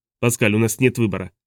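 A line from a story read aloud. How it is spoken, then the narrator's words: Plain. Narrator (Russian): ответил Сильвест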